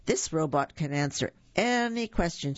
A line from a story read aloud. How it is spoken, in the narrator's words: she exclaimed